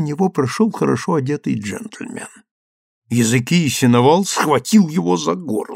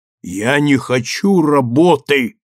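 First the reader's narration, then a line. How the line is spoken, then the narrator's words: Stern voice. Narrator (Russian): суровым голосом ответил Языкия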